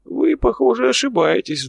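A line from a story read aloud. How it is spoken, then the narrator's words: Old man sighing. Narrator (Russian): вздохнул старичок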